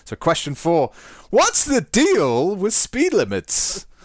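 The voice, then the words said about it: Jerry Seinfeld impression. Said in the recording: “my Seinfeld impression ... That's a really good Jerry Seinfeld.”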